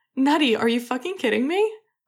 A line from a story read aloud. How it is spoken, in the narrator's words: Leo laughed too, shaking his head, tears in the back of his eyes